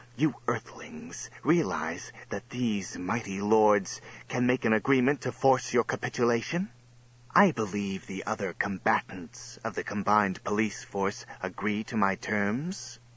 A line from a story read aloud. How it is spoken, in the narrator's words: Seeing his indecision, Lord Slime said with a harsh, acid hiss